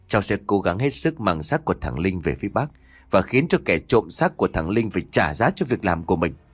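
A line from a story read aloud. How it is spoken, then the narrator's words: Quiet reassurance. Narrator (Vietnamese): Lâm nhỏ giọng trấn an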